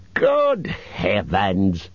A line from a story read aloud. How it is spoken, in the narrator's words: growled Bjorn